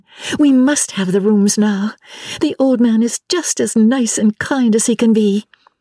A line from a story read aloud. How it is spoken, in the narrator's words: cried Lucy to her cousin